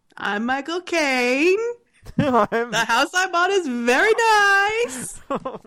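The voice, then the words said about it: Imitates another person's voice. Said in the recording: “Michael Caine impressions ... a Michael Caine accent”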